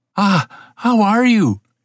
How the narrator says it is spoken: cried

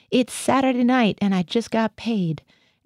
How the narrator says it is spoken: I heard Gothia howl

